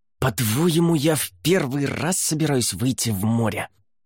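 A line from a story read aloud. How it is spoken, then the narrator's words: Hissing. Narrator (Russian): прошипела капитан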